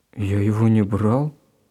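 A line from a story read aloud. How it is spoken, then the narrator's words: Confused. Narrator (Russian): растерянно ответил Гена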